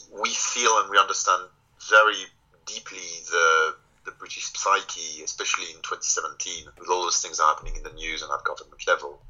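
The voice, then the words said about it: Strong foreign accent in English. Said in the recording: “my terrible accent”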